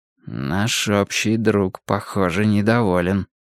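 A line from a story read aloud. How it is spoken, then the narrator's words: Muttered. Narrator (Russian): пробормотал я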